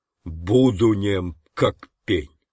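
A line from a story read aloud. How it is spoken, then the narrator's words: Thundering solemn oath. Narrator (Russian): громовым голосом, точно клятву на мече, выговорил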